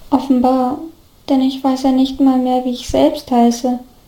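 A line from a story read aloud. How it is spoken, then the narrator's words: Plain. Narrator (German): antwortete Oliver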